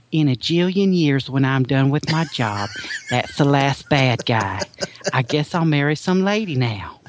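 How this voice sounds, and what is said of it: Put-on Alabama Southern accent. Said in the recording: “she's from Alabama, so she's got a little bit of a ... of an accent ... she's got this accent”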